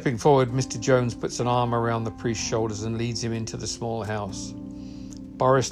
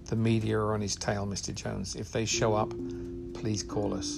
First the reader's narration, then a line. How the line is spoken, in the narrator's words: Jones and whispers